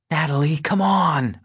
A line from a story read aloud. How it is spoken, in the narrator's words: plead